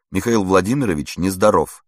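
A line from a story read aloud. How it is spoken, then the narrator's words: Plain. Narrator (Russian): сказала она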